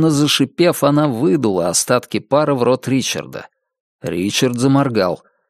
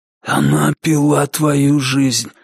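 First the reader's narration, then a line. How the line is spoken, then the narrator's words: Hoarse whisper. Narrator (Russian): хриплым шепотом объяснил маркиз Карабас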